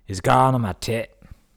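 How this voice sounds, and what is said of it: Put-on Scottish accent, screaming. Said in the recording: “my "it's going on my tit" Scottish accent”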